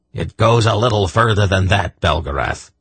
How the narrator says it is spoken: Belden growled

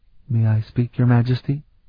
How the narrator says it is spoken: Aileen asked Aelana timidly

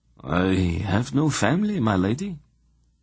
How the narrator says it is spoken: Emma replied in a dead voice

